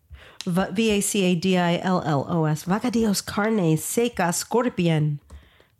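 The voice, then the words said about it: Put-on Spanish accent. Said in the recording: “That's my Spanish accent.”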